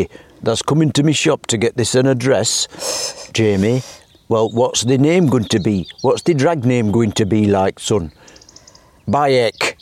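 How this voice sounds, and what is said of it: Exaggerated mock Hampshire hobbit voice. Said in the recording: “It's like your equivalent of the Hampshire accent, isn't it? ... nobody actually talks like this in Hampshire. I'm just doing a hobbit stupid voice.”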